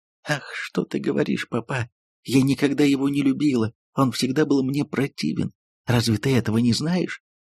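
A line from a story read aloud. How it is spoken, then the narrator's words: Tearful mumbling. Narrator (Russian): Тони снова разразилась слезами сквозь слезы пробормотала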